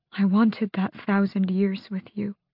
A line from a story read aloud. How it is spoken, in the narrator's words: she said softly